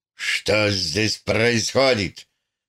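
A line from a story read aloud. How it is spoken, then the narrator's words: Hoarse angry question. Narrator (Russian): спросил сиплым от злости голосом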